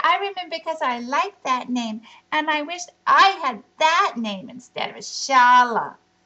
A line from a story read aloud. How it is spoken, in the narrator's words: shouted Shala